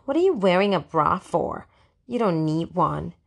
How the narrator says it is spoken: Lana asked in her snootiest voice

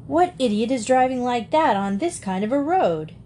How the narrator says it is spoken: exclaimed

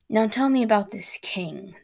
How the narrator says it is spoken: the dragon rumbled

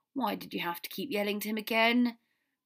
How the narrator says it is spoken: Ron groaned

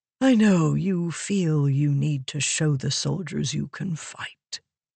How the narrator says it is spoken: Wit said softly

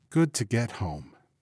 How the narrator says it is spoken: she said softly

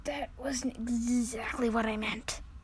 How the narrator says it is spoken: whispered Susan to Lucy

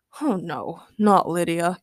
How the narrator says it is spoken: Keith grumbled

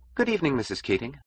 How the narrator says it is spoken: she said, her voice bright and hollow

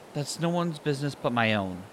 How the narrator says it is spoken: Tuku snapped

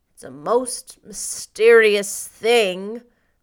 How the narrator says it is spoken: groaned Marilla

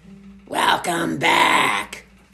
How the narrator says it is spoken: growled Miss Murkle

